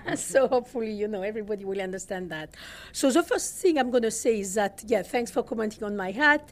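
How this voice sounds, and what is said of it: Southern French accent. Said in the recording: “Hopefully you'll manage my accent. This is Southern France. ... Your accent is wonderful.”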